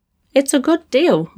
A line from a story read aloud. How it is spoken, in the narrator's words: Marcus said firmly